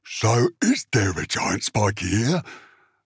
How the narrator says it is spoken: Mogrot asked eagerly

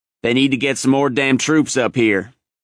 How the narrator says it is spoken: growled Snafu, his standard remark in a tight spot

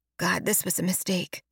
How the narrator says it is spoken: Zen mutters, her voice riddled with anxiety

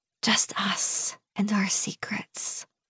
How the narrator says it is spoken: I whisper

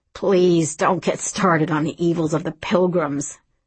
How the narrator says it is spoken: moaned Johnny

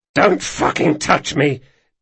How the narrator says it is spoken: Donker growled, gulping deep breaths and obviously straining to avoid throwing up

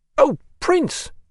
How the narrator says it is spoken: she exclaimed

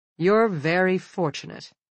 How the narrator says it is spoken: the woman says a little coldly

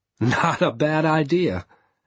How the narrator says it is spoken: I said, laughing

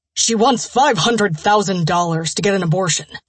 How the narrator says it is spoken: Trent grumbled

